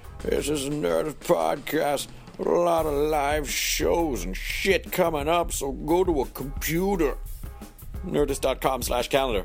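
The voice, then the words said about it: Crusty, scratchy character voice. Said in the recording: “My voice is a little scratchy ... I like to do this voice a little bit because it sounds really crusty ... I'm done with this character”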